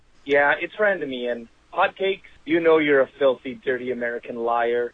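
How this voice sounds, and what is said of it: Canadian accent. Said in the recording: “he's got that Canadian accent. It's so hard to hear and understand what he's talking about”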